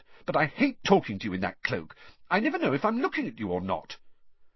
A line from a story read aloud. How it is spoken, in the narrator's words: Hermione snapped